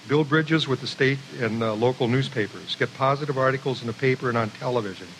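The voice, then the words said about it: Speaks with a noticeable regional accent. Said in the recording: “I have a funny accent.”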